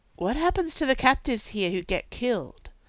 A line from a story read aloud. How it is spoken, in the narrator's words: Kai asked him in an undertone